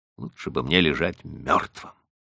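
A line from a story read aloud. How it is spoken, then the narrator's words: Muttered. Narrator (Russian): пробормотал я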